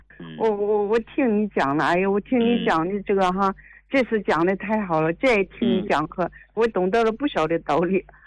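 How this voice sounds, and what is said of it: Yantai regional Chinese accent. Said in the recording (Chinese): “口音，你是烟台的还是大连的？... 这烟台和大连的口音差不多”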